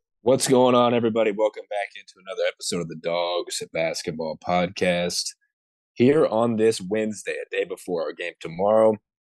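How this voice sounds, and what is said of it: Hoarse voice. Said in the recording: “Sounding a little hoarse.”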